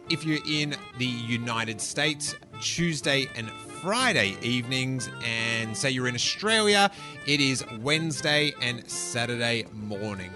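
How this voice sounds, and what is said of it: Australian accent. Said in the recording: “we're getting a lot more Australian callers, which is great. Love hearing my accent repeated to me”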